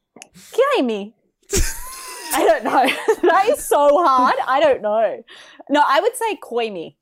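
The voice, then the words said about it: Australian accent. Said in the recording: “I'm saying it in an Australian accent.”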